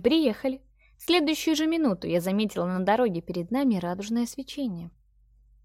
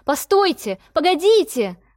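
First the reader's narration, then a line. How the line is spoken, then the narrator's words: Shouted. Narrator (Russian): выкрикнула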